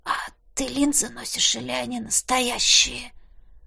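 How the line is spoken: Hoarse rasp. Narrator (Russian): Прохрипело

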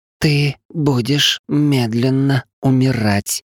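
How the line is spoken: Drawn out, savoring words. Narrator (Russian): смакуя каждое слово, протянула Кириаши

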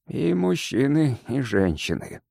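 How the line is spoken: Grim. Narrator (Russian): мрачно подтвердил моряк

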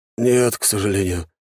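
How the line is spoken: Sighing. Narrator (Russian): вздохнул Суриков

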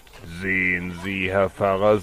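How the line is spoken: Plain. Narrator (German): sagte der Ratsherr

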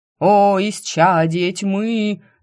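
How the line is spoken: Enthusiastic howl. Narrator (Russian): воодушевленно взвыл храмовник

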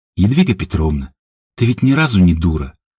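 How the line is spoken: Sighing. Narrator (Russian): вздохнула Емеля

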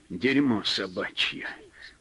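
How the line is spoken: Grumbled. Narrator (Russian): проворчал Павел

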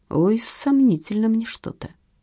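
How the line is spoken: Sigh. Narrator (Russian): вздохнул дядя Вася

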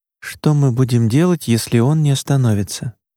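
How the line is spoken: Surprisingly calm. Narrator (Russian): Ее голос прозвучал на удивление спокойно

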